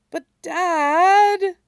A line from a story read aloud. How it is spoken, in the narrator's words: Stiles whines